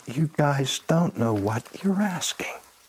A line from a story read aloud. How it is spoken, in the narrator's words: calmly rebuked them and said